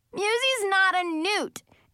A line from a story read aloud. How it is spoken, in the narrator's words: I yelled at him